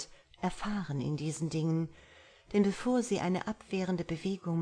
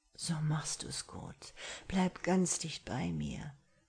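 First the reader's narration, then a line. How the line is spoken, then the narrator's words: Whispering into ear. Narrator (German): raunte ihr ins Ohr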